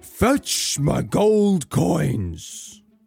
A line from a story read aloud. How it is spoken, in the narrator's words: he roared